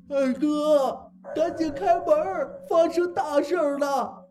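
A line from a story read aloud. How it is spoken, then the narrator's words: Crying, injured man. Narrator (Chinese): 六叔的大舅哥，他浑身是血的站在了门外，边哭边说着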